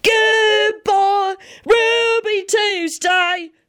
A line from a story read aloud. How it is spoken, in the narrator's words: Sirius yelled at the top of his lungs